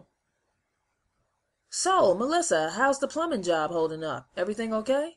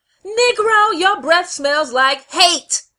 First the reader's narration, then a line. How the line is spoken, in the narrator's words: Shirley shouted